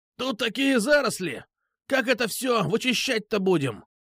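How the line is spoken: Harsh, creaky exclamation. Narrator (Russian): воскликнул человек с резким и скрипучим голосом

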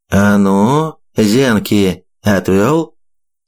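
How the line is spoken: Slow menacing. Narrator (Russian): Медленно проговорил он мне в лицо

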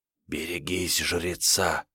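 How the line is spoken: Sudden whisper. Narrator (Russian): вдруг послышался шепот

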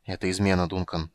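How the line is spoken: Quiet. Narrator (Russian): сказал он негромко

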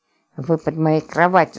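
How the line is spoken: Anxious hiss. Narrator (Russian): зашипела она, тревожно прислушиваясь

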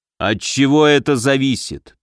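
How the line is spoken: Demanding drawl. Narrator (Russian): требовательно протянул Муром

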